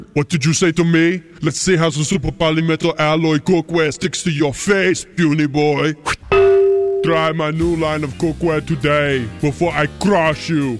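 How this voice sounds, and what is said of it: Poor Arnold Schwarzenegger impression. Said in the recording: “Okay, Arnold ... All celebrity voices are poorly impersonated.”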